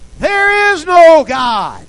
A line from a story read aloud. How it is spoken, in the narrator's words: he would step out on his front porch and yell after her